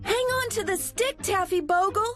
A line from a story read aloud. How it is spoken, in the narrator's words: cried Millie and Molly